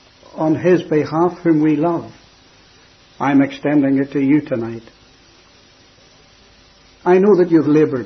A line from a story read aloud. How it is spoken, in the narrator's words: he said